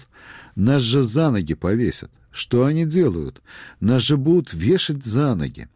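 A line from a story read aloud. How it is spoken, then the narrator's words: Exclaiming. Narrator (Russian): Степашин воскликнул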